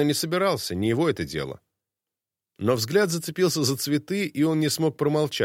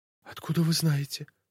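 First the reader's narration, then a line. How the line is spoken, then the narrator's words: Near whisper. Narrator (Russian): Она вымолвила почти шепотом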